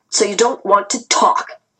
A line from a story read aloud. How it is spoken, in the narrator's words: snarled